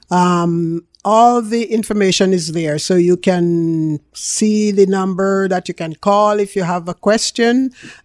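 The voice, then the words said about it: Jamaican accent. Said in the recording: “I am a real Jamaican. You can hear that in my accent.”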